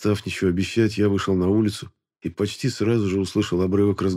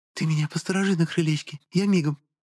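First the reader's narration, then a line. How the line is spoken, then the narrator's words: Whisper. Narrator (Russian): шепнула она мне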